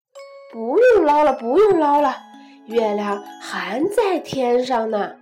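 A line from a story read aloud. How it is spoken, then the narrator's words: Loud. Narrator (Chinese): 他大声说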